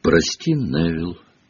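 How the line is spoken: Quiet. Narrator (Russian): негромко сказала она

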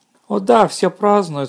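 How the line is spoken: Excited. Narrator (Russian): сказала она взволнованно

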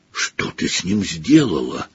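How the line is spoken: Whisper. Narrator (Russian): прошептал Гарри

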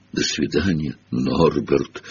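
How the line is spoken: Breaking strained voice. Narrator (Russian): срывающимся голосом выдавил из себя Хагрид

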